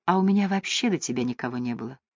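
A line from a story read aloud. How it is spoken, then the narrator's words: Quiet woman's voice. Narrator (Russian): тихо сказала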